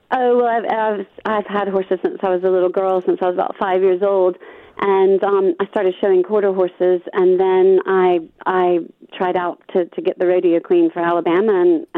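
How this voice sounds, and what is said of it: Mixed American and British accent. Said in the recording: “I'm an Alabama girl. I'm born and bred American ... you picked up a bit of the accent then ... I've been over here a long time, so my accent's a bit confused”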